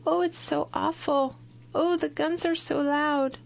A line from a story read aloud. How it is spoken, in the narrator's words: Beaverbrook, the fatalist, practically burst into tears and said in a timid little voice